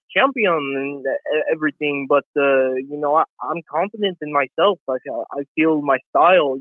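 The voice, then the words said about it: Russian accent drifting slightly Mexican. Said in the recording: “needs to do a Bibble impression ... Dude, you're Russian. it started Russian and then got slightly Mexican ... my Russian accent”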